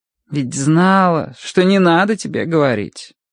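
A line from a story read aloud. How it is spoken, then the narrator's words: Sigh. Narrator (Russian): вздохнула Мэри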